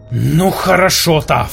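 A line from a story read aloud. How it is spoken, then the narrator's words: Growl. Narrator (Russian): прорычал Кай Невис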